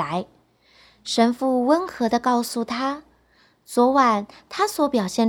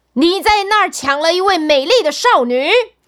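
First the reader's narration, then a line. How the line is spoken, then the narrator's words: Loud robber. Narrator (Chinese): 一个强盗大声地说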